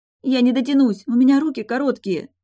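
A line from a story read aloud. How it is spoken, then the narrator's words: Almost whimpering. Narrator (Russian): едва не захныкала я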